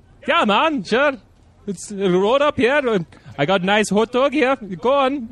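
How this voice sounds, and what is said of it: Attempted Finnish accent drifting Indian. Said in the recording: “Finnish people trying to perfect this accent... Nope, this is becoming Indian.”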